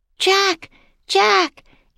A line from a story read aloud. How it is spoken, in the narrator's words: Annie shouted